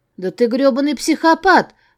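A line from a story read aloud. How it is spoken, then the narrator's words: Shouted in someone's face. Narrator (Russian): прокричала я ему в лицо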